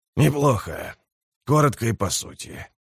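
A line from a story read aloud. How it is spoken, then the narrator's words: Whisper. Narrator (Russian): десятник говорил шепотом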